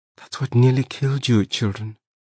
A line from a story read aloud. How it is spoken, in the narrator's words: my mother said in a whisper